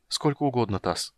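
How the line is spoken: Sad, smiling. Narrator (Russian): сказал он и печально улыбнулся

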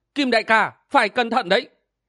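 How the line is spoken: Frightened urgent cry. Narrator (Vietnamese): Nàng rung mình vội la lên

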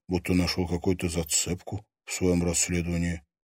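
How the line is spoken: Quiet. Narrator (Russian): тихо сообщил Герман

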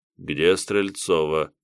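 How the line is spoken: Flat emotionless question. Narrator (Russian): безэмоциональным голосом спросил легионер

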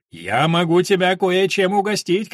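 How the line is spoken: Called out after someone. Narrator (Russian): крикнул он ей вдогонку

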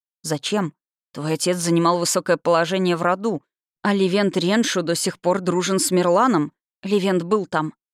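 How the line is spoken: Forced, strained words. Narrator (Russian): выдавила я

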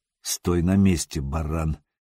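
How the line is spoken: Low, hoarse, menacing. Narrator (Russian): негромко произнес Сергей по-печенежски, стараясь, чтобы голос звучал хрипло и грозно

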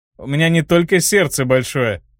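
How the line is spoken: Chuckling. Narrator (Russian): хохотнул отпрыск Галахеров

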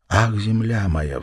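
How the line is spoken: Sighing. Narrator (Russian): вздохнул он

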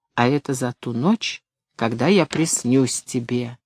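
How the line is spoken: Whispering. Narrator (Russian): шептал

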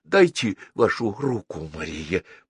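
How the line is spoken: Whisper. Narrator (Russian): прошептал дипломат

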